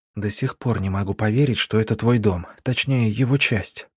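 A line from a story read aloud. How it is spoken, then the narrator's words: Whisper while walking. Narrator (Russian): прошептала на ходу Арина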